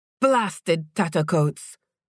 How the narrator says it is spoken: the storekeeper grumbled when he heard the thump on their roof

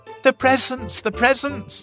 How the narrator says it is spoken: shouted the young elephants

